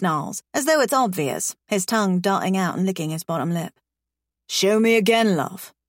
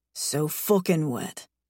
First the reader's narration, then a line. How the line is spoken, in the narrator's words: he mumbles